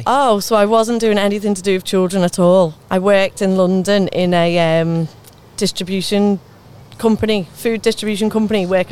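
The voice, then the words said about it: Scouse accent. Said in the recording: “do I detect a Scouser accent? ... I'm from the Wirral originally ... still got the accent”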